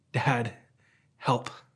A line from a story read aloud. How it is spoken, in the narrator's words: the boy quietly whispers